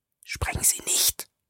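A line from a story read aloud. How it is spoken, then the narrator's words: Urgent hiss. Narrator (German): zischte Julius noch eindringlicher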